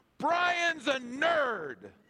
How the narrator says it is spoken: Aaron Anderson stood up on the bus and yelled out to everybody

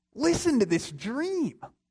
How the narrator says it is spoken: he exclaimed

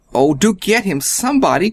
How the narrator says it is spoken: cried Freddie

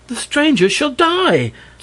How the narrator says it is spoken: snapped one

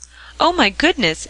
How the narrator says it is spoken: exclaimed Mr

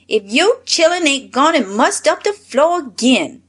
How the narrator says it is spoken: she exclaimed

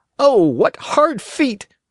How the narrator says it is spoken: cried the boy

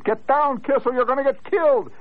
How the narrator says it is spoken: The crowd hollered

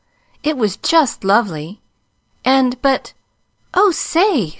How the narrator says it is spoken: exclaimed joyously

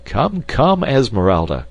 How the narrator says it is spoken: cried Clayton

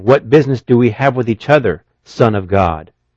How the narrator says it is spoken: They cried out, saying

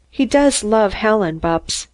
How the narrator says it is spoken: Mary murmured

